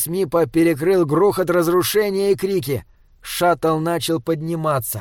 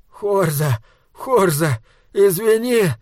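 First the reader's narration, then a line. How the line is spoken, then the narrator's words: Sobbing voice. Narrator (Russian): раздался рыдающий голос Мипа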